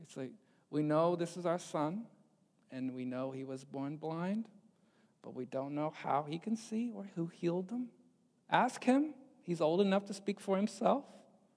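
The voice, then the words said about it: Sheepish put-on New York accent. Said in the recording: “sheepish, you know, kind of, I don't know, New York accent”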